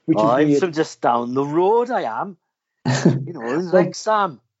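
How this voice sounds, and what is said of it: Bad put-on Welsh accent. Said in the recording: “that was the worst Welsh accent”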